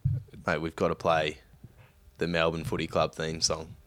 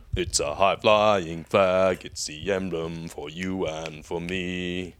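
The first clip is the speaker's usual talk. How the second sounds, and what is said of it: Singing in a deep voice. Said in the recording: “You've got to sing it in a deep voice.”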